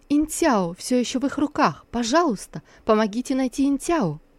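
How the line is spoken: Agitated pleading. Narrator (Russian): Сусу вдруг вспомнила о малышке и взволнованно попросила

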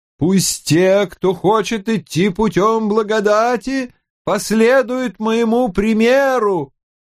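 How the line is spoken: Chanted, singsong. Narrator (Russian): нараспев проговорил он

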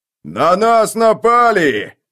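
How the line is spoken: Furious yell. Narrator (Russian): яростно заорал Скорч

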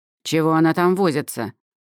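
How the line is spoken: Angry question. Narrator (Russian): зло спросила Эльма

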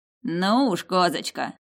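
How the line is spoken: Poor gatekeeper's chuckle. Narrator (Russian): хохотнул бедный привратник

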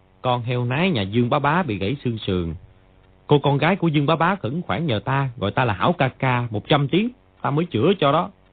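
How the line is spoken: Cold voice. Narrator (Vietnamese): lạnh lùng mà nói

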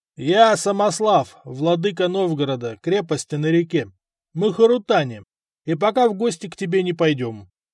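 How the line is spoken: Shout. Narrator (Russian): крикнул ему

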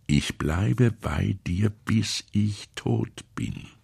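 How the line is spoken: Quiet but clear man. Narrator (German): sagte er leise und vernehmlich

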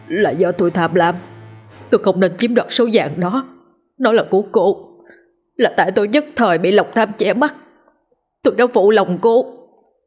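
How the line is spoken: Trembling voice. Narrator (Vietnamese): thì anh ta mới run rẩy nói

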